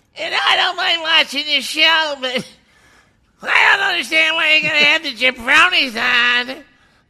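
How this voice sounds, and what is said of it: Imitates a woman's voice. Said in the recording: “I'll go with a woman. ... I'll do a woman.”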